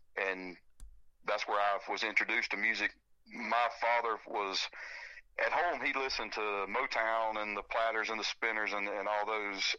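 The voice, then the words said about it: Southern American accent. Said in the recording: “I hear the Southern accent”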